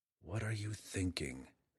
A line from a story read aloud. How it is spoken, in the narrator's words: Drizzt muttered under his breath